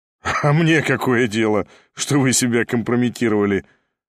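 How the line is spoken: Laughing with flashing eyes. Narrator (Russian): засмеялся Ставрогин, но глаза его сверкали

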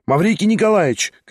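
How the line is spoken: Shout. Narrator (Russian): крикнула она

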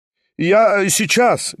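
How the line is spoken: Shout from another room. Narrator (Russian): крикнул из другой комнаты Степан Трофимович

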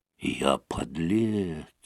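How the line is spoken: Whispered to himself. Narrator (Russian): прошептал он про себя

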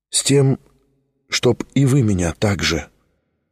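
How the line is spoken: Heartfelt voice. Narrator (Russian): проникнутым голосом промолвил Тихон

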